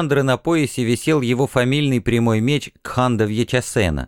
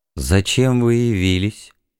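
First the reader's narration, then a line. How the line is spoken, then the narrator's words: Muffled question. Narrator (Russian): глухо спросил Вардан Сачкамал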